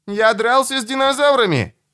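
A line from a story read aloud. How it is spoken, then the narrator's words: Shouting. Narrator (Russian): закричал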